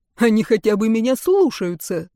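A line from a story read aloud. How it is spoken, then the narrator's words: Conductor's snort. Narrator (Russian): хмыкнул дирижер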